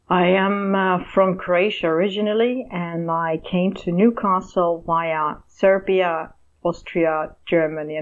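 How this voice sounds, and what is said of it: Non-native English accent. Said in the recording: “you can tell from your accent that you're not originally from there”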